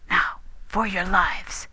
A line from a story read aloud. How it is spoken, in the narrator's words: whispered